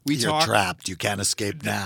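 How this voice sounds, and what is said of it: Gravelly Oscar the Grouch-like voice. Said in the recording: “I don't know what that accent was. It was like Oscar the Grouch.”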